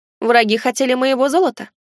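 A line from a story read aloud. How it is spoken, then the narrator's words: Snorting. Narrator (Russian): хмыкнул я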